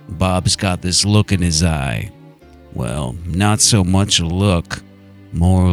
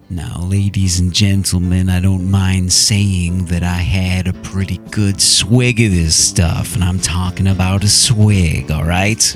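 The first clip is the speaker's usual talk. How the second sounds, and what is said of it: Jack Nicholson impression. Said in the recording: “in a Jack Nicholson accent”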